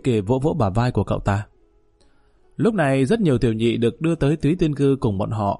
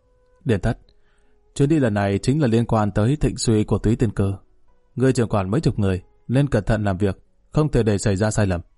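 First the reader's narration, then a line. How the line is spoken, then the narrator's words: Quiet. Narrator (Vietnamese): Lý Kỳ mỉm cười, nhỏ giọng nói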